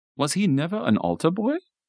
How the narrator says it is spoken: asked, seemingly surprised

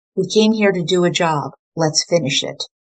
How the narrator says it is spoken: Fred spoke calmly

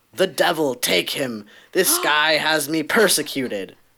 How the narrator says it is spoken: The bear, however, became irritated after being repeatedly poked with a stick and growled out, not in English but in Irish

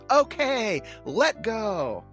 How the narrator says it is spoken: Charlie Brown yells

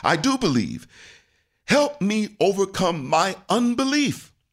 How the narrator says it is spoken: Immediately, the boy's father exclaimed

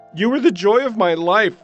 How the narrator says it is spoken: called out

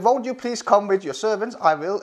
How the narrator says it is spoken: Elisha replied

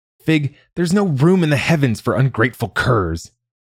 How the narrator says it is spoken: yelled

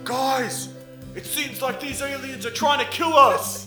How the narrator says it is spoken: he yells out

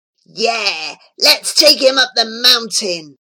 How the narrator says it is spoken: hissed another boy

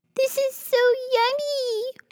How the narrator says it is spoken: Pur Pur yelled

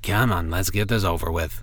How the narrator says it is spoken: he muttered, apparently knowing what to expect and resigned to it

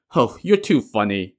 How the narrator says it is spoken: the man scoffed

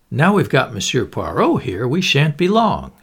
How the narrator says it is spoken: he said cheerfully

